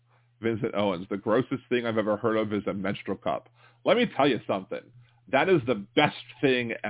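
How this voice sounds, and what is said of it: Usual voice. Nothing is said of it.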